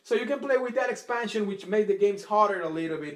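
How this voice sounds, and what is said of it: Speaker's own noticeable accent. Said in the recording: “I'm sorry about my accent”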